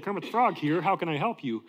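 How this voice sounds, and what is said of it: Kermit the Frog character voice. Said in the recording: “I figured out how to do the accent”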